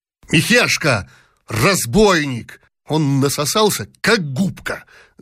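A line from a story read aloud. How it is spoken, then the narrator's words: Shout. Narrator (Russian): закричал князь Щербатов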